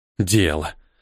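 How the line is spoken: Angry, curt. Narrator (Russian): Зло бросил Ниэль

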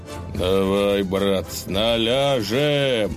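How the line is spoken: Tired, panting. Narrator (Russian): устало отдуваясь, проговорил Илья

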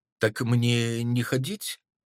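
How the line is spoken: Timid question. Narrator (Russian): робко поинтересовался он

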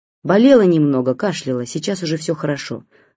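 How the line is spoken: Irritated answer. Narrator (Russian): раздраженно ответила Варжетхан

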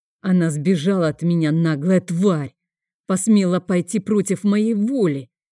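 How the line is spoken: Furious growl. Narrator (Russian): Яростно зарычал

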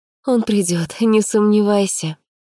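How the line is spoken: Sighing. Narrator (Russian): вздохнула я

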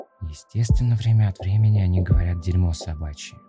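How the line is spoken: Sighing. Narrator (Russian): вздохнула она

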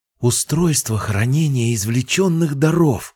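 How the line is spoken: Exclamation. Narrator (Russian): воскликнула Сирин

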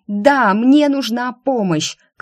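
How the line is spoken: Shouted in face. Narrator (Russian): крикнула я ему в лицо

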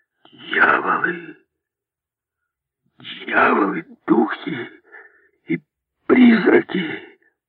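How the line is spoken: Whisper in silence. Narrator (Russian): В полной тишине был слышен его шепот

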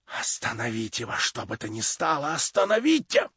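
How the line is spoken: Anxious whisper. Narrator (Russian): прошептала она в тревоге

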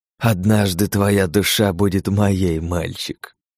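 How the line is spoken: Snake-like hiss. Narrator (Russian): прошипел он на змеиный манер

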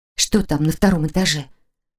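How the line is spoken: Quiet question. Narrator (Russian): Тихо поинтересовалась Лили

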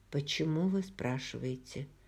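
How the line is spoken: Very calm question. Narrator (Russian): Роджер не поддался порыву отвлечься беспорядочными мыслями, и он очень спокойно спросил

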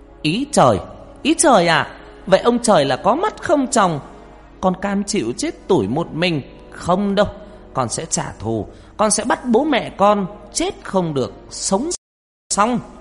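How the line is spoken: Near-scream in silent night. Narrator (Vietnamese): Con Hoa tiếng nói như hét lên giữa bốn bề đêm vắng

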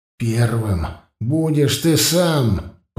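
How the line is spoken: Growling. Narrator (Russian): прорычал Власка

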